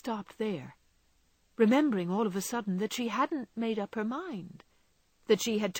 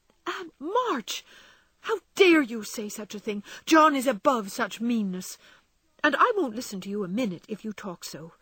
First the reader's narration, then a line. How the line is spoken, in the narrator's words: cried Meg indignantly, forgetting everything but the injustice of the old lady's suspicions